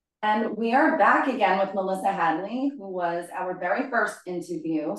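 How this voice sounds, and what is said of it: Long Island accent. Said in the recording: “You still have your Long Island accent, even though you're a Texan now.”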